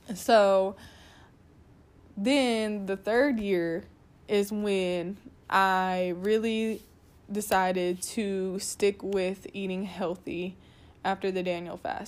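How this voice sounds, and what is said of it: Voice of someone with a cold. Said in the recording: “I have a little cold.”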